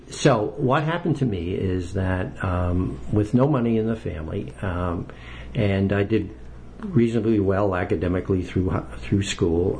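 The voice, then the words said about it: New York accent. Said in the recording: “I've never lost my New York accent.”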